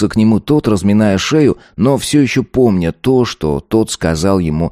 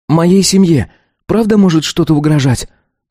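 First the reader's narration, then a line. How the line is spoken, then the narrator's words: Serious, slightly worried. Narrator (Russian): спросил он серьезным, даже немного обеспокоенным тоном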